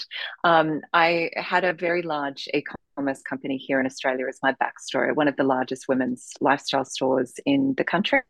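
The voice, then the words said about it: Australian accent. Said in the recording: “You can hear the Australian accent.”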